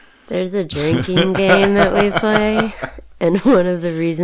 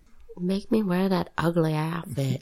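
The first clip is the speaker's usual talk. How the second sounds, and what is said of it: Impression with a Southern-sounding accent. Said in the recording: “Is that your Marina Sirtis impression? Because she sounds kind of Southern.”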